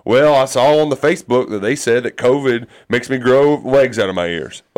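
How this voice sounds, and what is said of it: Put-on Southern accent. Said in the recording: “does that, he for sure have that accent? ... it's always a southern accent”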